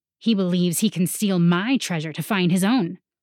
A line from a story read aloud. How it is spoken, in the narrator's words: Tajad scoffed